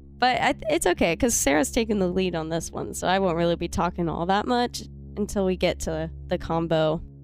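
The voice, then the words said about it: Congested, nasal-sounding voice. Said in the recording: “I wonder if my voice sounds weird... It sounds different, but it doesn't sound bad... I have a pretty bad cold. My nose is real messed up right now.”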